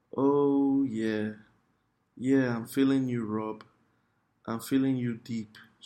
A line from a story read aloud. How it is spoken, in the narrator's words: moaned into the phone